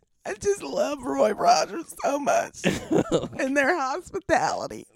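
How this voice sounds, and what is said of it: Tearful, choked-up speech. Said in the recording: “That revelation made you break down in tears. ... I just get choked up ... as I was crying”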